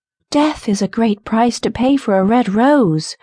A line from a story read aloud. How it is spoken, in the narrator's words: cried the nightingale